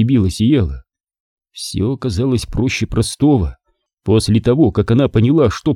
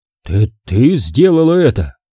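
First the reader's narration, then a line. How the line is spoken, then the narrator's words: Weak, strained after coughing. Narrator (Russian): Равилан, откашлившись, выдавил слабую усмешку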